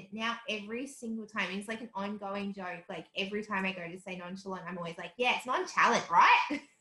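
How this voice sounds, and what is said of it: Strong Australian accent. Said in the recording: “the most Australian accent ever”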